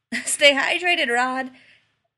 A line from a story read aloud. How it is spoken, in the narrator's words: Sean ... yelled